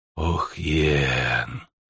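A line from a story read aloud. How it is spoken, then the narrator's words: Witcher's reproachful whisper. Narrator (Russian): укоризненно шепнул ведьмак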